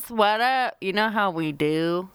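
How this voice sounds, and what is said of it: Affected cool-girl character voice. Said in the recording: “I don't talk like that. ... Was that one of your voices? ... Trying to be cool girl voice.”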